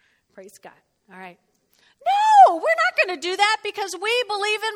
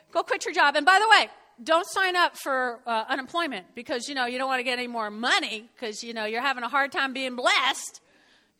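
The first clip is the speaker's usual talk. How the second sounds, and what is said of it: Sarcastic tone. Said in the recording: “Okay, I'm being sarcastic here.”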